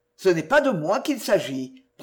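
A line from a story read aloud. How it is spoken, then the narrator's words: Icy tone. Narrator (French): prononça le magistrat d'un ton glacé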